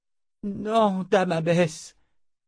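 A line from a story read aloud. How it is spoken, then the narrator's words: Moaning. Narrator (French): gémit Georgia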